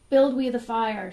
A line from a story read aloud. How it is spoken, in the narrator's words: shouted his followers